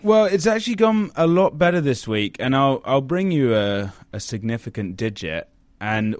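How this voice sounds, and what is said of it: British accent. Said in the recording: “your British lilt grace our ears yet again... Another British lilt”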